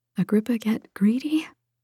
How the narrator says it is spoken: asked, her voice hoarse

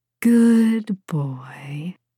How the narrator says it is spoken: Rufina purred

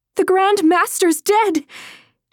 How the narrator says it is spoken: shouted at the soldiers

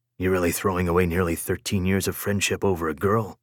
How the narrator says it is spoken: Servius muttered under his breath

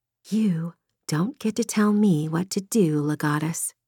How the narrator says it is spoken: she whispered

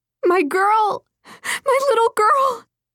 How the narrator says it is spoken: above the noise, heard a woman scream

